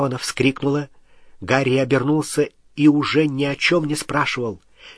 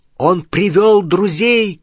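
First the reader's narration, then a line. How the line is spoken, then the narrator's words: Shout. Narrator (Russian): крикнул Гарри остальным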